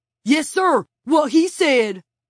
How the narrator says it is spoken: May exclaimed

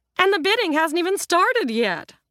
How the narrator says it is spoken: the real estate agent piped up

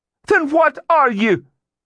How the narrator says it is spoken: She shouted

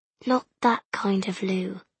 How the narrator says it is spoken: he muttered

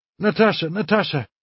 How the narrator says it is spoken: Alyosha cried in distress

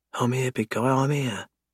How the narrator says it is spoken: she whispers

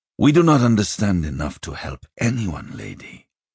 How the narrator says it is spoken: he said softly

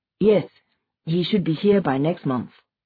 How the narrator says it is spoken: she said

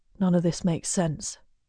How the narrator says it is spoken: he mumbles

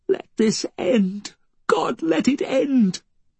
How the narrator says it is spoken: He sobbed, snuffled

